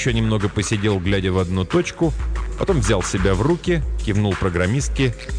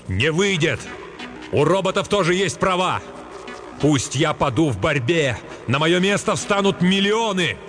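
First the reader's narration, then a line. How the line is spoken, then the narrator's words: Shout. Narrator (Russian): крикнул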